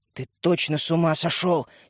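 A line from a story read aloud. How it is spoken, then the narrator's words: Angry whisper. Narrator (Russian): сердито прошептала Ариша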